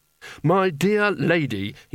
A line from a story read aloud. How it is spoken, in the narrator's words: he said desperately